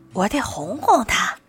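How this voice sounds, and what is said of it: Quiet muttering. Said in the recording (Chinese): “小声嘀咕”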